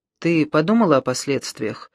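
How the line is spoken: Even, level voice. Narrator (Russian): спросил Брунетти ровным голосом

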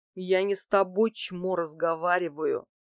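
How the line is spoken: Brute through gritted teeth. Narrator (Russian): процедил сквозь зубы бугай

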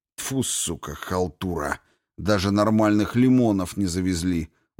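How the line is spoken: Grumbling mutter. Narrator (Russian): буркнул Грей

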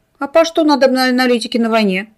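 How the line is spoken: Grumbling dwarf. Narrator (Russian): пробурчал гном

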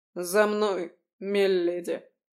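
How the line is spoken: Guard muttering. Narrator (Russian): пробурчал охранник

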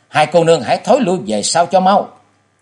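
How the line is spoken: Loud shout. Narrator (Vietnamese): chàng quát to

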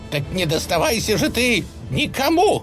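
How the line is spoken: Murderous shriek. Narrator (Russian): Завизжал он, явно собираясь заколоть Марусю

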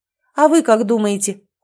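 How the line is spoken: Cold. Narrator (Russian): холодно ответила я вопросом на вопрос

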